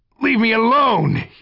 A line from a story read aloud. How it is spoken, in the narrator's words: he shouted